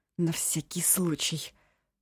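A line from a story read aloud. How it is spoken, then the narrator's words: Through gritted teeth. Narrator (Russian): процедила Янса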